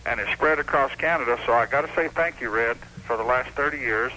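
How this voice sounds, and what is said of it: Texas accent. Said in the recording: “I love that Texas accent. You know, you've never lost that.”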